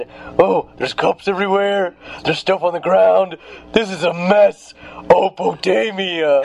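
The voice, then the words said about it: Imitates another person's voice. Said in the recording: “That's a really good Ryan Keel impression,”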